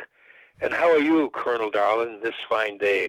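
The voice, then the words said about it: Put-on Irish brogue. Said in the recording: “I tried to do it with my Irish brogue.”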